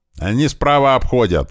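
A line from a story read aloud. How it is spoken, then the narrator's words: Yelling. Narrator (Russian): орал Большой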